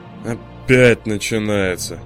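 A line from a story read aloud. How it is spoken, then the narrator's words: Heavy sigh. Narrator (Russian): тяжко вздохнул надзиравший за японцами сотрудник Wargaming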